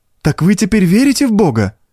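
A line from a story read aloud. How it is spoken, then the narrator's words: Girl's tearful joyful exclamation. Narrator (Russian): воскликнула девочка с простодушной радостью, и на глазах у нее показались слезы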